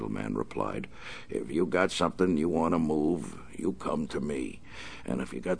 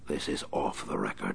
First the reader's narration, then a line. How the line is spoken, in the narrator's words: the Batman whispered